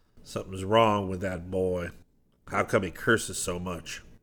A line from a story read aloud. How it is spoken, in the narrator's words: the man said